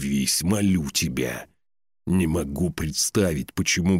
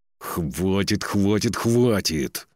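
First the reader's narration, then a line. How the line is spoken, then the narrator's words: Through clenched teeth. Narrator (Russian): процедил сквозь зубы Торгни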